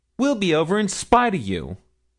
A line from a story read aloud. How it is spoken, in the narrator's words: cried Milly